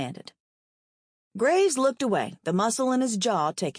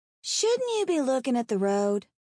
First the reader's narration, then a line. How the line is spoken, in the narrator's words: Not Morticia piped up from the back